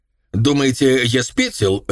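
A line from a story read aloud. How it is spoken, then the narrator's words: Sharp question. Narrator (Russian): резко спросил Крей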